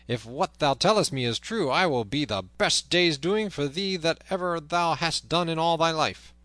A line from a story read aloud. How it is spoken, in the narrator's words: cried he